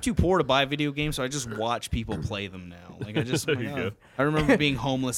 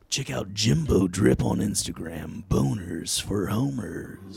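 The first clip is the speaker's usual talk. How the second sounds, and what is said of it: Movie trailer announcer voice. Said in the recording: “Can I do a movie theater trailer voice for that?”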